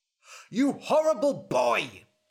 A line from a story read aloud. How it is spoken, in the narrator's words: shouted